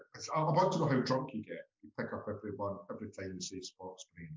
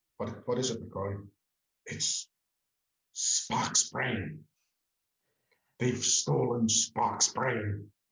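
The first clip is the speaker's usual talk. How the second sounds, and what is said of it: Imitates a Star Trek character's voice. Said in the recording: “that definitely sounded like a Dr. McCoy impression ... your impression wasn't that bad”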